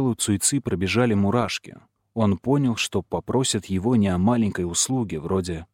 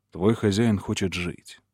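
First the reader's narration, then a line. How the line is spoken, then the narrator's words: Tender voice. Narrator (Russian): сказал доктор нежным голосом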